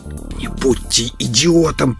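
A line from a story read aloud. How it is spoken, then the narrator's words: Man whispering. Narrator (Russian): прошептал мужчина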